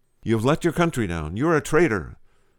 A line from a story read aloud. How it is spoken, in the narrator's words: the manager of the British team cried